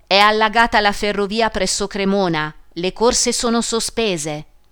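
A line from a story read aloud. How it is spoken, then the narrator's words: Cracked voice shouting. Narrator (Italian): Una voce fessa gridò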